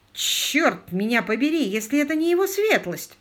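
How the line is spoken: Exclaiming. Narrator (Russian): воскликнул инспектор Сак

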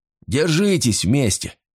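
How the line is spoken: Barking shout. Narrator (Russian): рявкнул Ули

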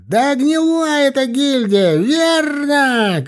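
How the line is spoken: Shrill shout. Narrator (Russian): крикнул кто-то пронзительным голосом

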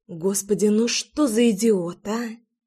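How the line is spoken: Smiling mutter. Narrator (Russian): Пробормотала я, неосознанно улыбаясь

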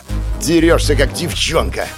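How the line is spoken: Growled in someone's face. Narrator (Russian): Прорычал я в лицо безмерно довольного собой Романа

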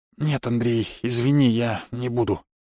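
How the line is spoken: Sad muttering. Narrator (Russian): пробормотал отец, и я заметил, что он какой-то грустный

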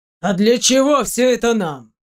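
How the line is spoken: Rough question. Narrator (Russian): грубо вопросил Ник

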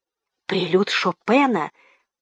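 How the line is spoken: Quick whisper, young man. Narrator (Russian): прошептал тотчас все тот же юнец в свитере

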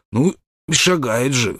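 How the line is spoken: Hoarse child's voice. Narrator (Russian): хриплым голосом произнес малыш

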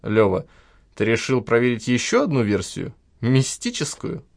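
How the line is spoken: Chuckling. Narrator (Russian): хохотнул Кричко

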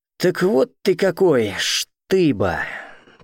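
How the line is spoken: Drawled. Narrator (Russian): Протянул он

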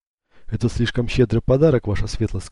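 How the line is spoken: Plain. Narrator (Russian): сказал ему Эцио

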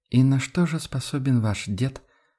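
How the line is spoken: Gentle reminder. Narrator (Russian): напомнила Адельхайда мягко

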